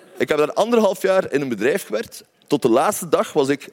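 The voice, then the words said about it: Belgian Flemish accent in Dutch. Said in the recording (Dutch): “solliciteren in Nederland met een Belgisch accent”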